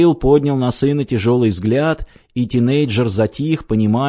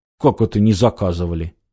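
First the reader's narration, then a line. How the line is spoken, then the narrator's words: Muffled grumbling. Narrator (Russian): пробурчал гость в бороду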